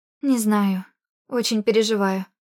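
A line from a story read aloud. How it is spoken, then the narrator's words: Trembling voice. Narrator (Russian): ответила дрожащим голосом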